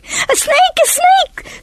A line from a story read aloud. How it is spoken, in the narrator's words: screamed Jason